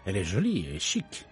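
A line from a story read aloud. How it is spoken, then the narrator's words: Murmured. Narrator (Italian): mormorò Poirot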